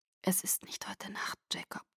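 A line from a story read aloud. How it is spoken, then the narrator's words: Whisper. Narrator (German): flüsterte ich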